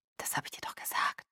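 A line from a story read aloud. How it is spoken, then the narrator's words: Whisper. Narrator (German): flüsterte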